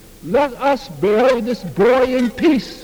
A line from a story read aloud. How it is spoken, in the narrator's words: I get a mic from the police and I scream out to the people